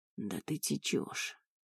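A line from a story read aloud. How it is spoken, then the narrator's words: Hoarse voice. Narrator (Russian): проговорил он хрипло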